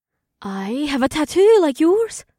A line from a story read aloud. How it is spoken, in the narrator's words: Amber said breathlessly